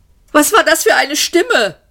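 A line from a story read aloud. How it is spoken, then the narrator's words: Shouted. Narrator (German): schrie Arthur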